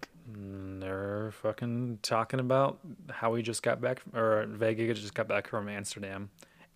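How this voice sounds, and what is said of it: Slurred speech. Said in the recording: “Holy fuck, my words. I'm slurring.”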